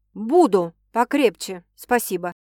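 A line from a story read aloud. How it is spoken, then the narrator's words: Irritated, curt. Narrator (Russian): раздраженно бросает он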